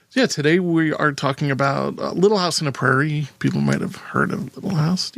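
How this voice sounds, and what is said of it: Unusually high-pitched voice. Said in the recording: “My voice is very high. I don't know why.”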